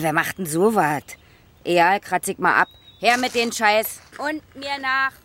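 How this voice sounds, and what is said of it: Rough Berlin dialect, barking tone. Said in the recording (German): “berlinert Kathi plötzlich so räudig ... Sie berlinert ... Sie schützt sich, indem sie bellt”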